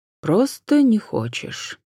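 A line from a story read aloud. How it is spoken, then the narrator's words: Calm agreement. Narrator (Russian): спокойно согласился викарий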